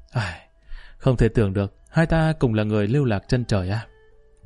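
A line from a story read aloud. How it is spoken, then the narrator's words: Sighing, self-mocking laugh. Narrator (Vietnamese): Trong tiếng cười bí mật mang theo một tia tự giễu, Lý Kỳ bỗng nhiên một tiếng thở dài nói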